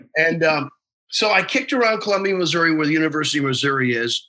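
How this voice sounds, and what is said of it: Usual voice. Nothing is said of it.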